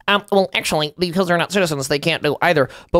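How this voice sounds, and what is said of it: Mocking left-wing character voice. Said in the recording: “That was my lefty impression ... It did sound more like Ben Shapiro.”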